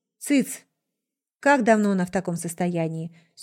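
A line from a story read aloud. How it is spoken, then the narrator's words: Dry businesslike question. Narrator (Russian): Сухим деловым тоном спросил упырь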